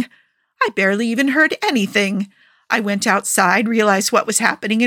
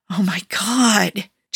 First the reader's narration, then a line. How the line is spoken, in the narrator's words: Joe hissed